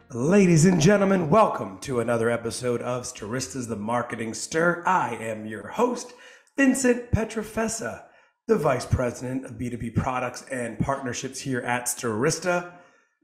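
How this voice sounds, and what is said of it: Raspy, hoarse voice. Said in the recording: “You'll notice my voice a little raspy. That is because I coach my son's Little League team ... And then I sound like this.”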